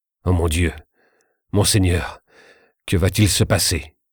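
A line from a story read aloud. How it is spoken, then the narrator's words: Murmured. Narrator (French): murmura son officier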